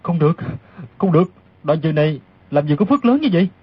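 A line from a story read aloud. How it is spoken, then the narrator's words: Muttering. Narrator (Vietnamese): lẩm bẩm thành tiếng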